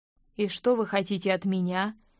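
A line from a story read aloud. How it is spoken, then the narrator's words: Hollow muffled voice. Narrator (Russian): глухо произнес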